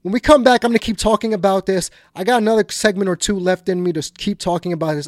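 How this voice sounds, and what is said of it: Energetic, pumped-up delivery. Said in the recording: “my voice is really pumped up”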